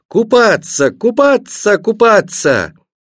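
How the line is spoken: Joyful shout. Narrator (Russian): радостно захлопав в ладоши, закричала

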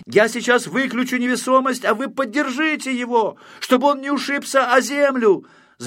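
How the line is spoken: Shouting from afar. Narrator (Russian): закричал Знайка издали

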